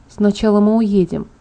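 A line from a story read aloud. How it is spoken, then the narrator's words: Quiet. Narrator (Russian): тихо проговорила я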